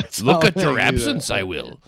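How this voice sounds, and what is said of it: Poor Yoda-style impression. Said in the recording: “It's kind of like Yoda talk ... a terrible impression I have.”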